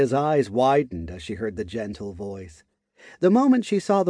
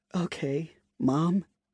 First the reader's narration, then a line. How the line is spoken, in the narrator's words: she said, in a somewhat emotional tone